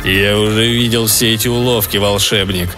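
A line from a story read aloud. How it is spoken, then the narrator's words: Growling. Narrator (Russian): рыкнул он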